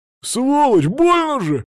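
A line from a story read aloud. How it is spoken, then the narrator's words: Roaring in pain. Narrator (Russian): взревел мой противник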